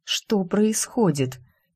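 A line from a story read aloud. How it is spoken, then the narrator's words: Through gritted teeth. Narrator (Russian): Илья цедит сквозь зубы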